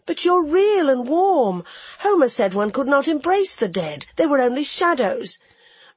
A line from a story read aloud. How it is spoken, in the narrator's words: I cried